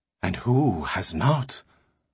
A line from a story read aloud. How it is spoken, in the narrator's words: Magnifico's voice was a mysterious whisper